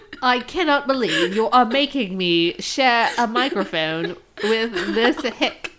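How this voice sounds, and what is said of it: Put-on British accent. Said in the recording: “you just talk in your British accent”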